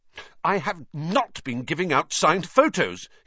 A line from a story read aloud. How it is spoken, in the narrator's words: he said hotly